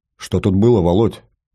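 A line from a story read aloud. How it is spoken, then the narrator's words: Quiet question. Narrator (Russian): негромко спросил я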